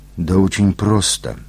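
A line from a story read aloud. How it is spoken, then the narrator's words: Mumbling around a cigarette. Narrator (Russian): пробормотал Абрамович, боясь выпустить изо рта сигарету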